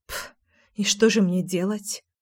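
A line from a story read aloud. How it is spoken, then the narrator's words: Muttered. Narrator (Russian): пробормотала я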